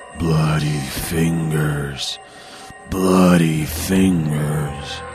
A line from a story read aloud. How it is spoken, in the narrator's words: it was moaning